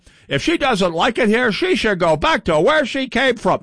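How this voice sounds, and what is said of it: Imitates another person's voice. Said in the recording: “That's a very good Matt Little impression,”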